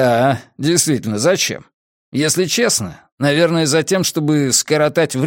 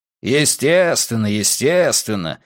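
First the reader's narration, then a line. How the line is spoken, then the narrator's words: Displeased, curt remark. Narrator (Russian): недовольным тоном бросил Филипп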